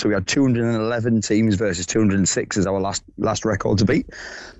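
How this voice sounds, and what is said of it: Hoarse voice. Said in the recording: “Were you doing a lot of shouting over the weekend? Because you sound quite hoarse.”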